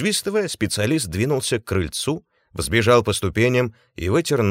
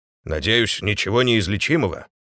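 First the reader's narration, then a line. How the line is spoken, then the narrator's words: Grumble. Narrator (Russian): проворчал хозяин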